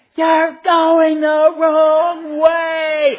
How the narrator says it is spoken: screaming

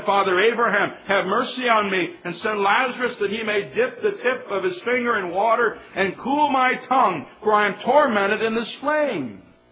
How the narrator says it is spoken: he cried and said

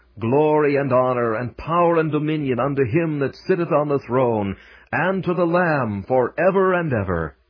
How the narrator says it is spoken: those who stand on the boundless plains of heaven, and with all their might shout

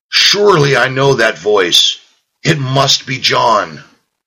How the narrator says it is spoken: tormented wretches cried out mournfully

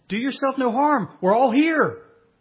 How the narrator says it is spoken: Paul, he cried out and he said

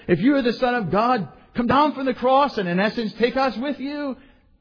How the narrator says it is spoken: he's mocking with the other malefactor

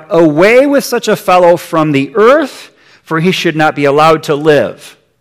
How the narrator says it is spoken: they cried out

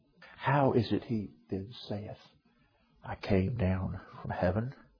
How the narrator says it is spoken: They murmured

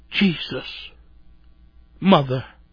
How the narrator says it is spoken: The last sigh came, and with it 2 faint words

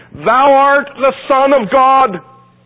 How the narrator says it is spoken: unclean spirits, fell down before him and cried, saying

